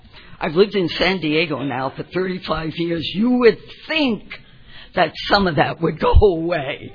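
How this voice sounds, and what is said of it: New York Bronx accent. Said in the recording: “I grew up in the Bronx, but of course you didn't know that from my accent ... can't take the girl out of the city”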